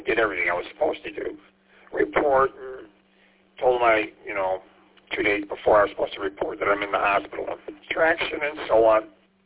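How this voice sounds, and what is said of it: Voice sounds off. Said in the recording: “Sorry about my voice.”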